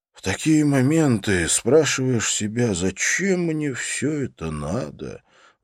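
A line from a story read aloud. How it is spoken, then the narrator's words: Sighing. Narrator (Russian): вздохнул Серж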